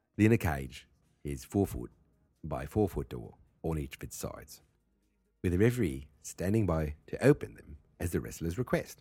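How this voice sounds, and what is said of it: Attempted Australian accent. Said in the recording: “can I do Australian? I'm going to try to do Australian.”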